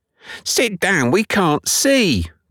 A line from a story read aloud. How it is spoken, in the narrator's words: cried several